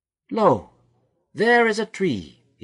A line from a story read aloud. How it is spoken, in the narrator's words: he cried